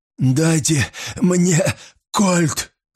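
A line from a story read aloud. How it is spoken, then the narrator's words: Hoarse demand. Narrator (Russian): хрипло потребовал полицейский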